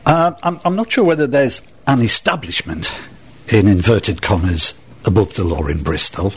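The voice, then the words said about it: Northeast English accent. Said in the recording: “I'm not a Bristolian, as you can probably tweak from my accent ... Can I just quiz you on your accent? Is that, where is it, Manchester? ... I'm a northeasterner, I'm from Sunderland.”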